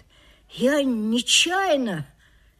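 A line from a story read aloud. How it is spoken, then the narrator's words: Quiet drawl. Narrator (Russian): тихо протянул Мишка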